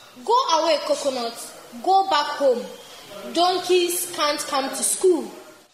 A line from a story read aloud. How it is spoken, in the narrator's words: Clapper, the teacher, shouts